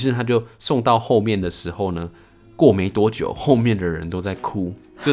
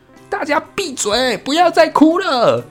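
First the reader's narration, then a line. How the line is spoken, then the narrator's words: Shouting. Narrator (Chinese): 他对龙宫后面大喊说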